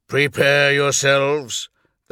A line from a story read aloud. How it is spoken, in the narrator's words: the Primarch growled